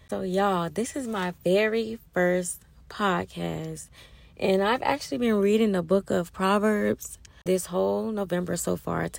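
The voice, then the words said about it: Hoarse, fading voice. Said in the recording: “My voice sound a bit hoarse ... I've been losing my voice,”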